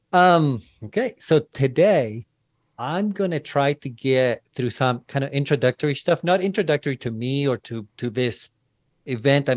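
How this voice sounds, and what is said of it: Foreign accent mixed with Texas accent. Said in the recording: “I am a foreigner ... I have a weird accent ... this weird mix now between my foreign accent and my Texas accent.”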